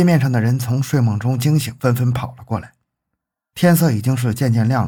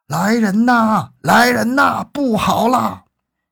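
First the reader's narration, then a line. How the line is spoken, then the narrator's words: Terrified loud shout. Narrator (Chinese): 张学武大惊，当下扯开喉咙，惊恐的大声喊道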